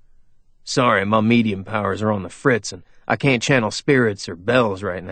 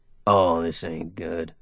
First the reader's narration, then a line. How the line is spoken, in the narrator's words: Jess muttered under his breath